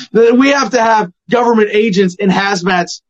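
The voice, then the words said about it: Mock authoritative government voice. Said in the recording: “This is my daddy government voice. I don't know who I'm impersonating.”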